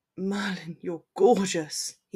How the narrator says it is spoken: breathed

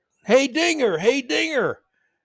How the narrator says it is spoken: Fans yelling

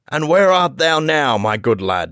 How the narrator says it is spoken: shouted the stranger, roaring with laughter

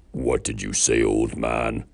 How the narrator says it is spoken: growled the troll, visibly angry, drool dripping from his bottom lip

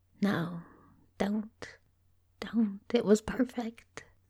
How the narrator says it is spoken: murmured very softly

